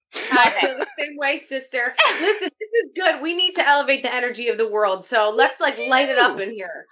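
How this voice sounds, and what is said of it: New Jersey accent. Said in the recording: “Do I hear a Jersey accent? ... Yes, you do. ... Oh, she's Jersey.”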